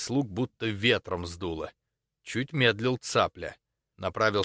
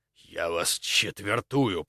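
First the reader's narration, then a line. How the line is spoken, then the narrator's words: Angry hiss. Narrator (Russian): прошипел он со злостью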